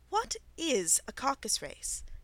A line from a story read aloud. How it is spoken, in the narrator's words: said Alice